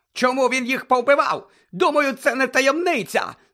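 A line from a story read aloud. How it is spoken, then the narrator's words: Shrieking again. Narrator (Ukrainian): знову заверещав Фадж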